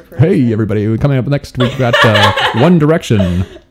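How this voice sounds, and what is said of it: Deep silky radio DJ voice. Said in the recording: “it's deep and bassy, and if I really wanted to, I could really make it like silky ... you sound like a radio talker”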